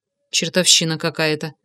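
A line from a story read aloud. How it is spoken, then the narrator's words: Muttering. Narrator (Russian): пробормотал я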